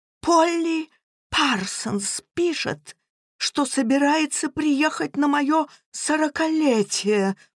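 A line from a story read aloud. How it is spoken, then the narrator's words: Groan. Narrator (Russian): простонал Эдвард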